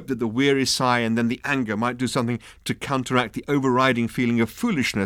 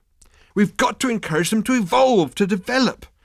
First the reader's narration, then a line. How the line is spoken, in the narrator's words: Arthur burst out angrily